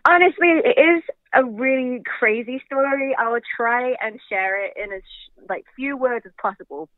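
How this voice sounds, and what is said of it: English accent blended with American. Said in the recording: “I'm from England. I don't know if you can tell, my accent doesn't sound normal. I've lived in America since I was 16 now, but so it's a weird blend... my English friends think I sound American, but American people think I sound English”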